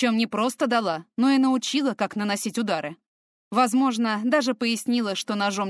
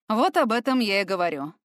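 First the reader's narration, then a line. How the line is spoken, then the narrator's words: Man's grunt. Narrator (Russian): мужчина хмыкнул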